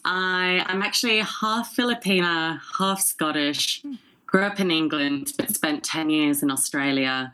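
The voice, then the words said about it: Non-Texan accent. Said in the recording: “Your accent. ... It's not a typical Dallas accent.”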